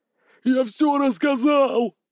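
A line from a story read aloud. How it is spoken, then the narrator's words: Big man yelling. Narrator (Russian): вопил здоровяк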